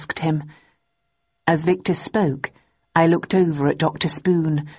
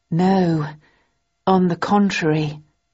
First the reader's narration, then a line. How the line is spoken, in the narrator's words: I replied slowly